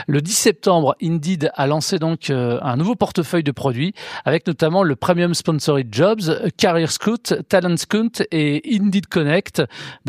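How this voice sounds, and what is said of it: French-accented English pronunciation. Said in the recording (French): “Désolé pour mon accent anglais.”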